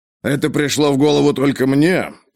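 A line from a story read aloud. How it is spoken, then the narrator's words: Mumbling. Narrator (Russian): пробормотал Ковальский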